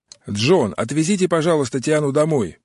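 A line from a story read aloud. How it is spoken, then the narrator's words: Shouting through window gap. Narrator (Russian): прокричал Отто в щелку опущенного стекла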